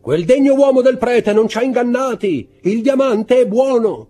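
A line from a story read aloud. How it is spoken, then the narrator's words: Joyful exclamation. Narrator (Italian): Si sentì un'esclamazione di gioia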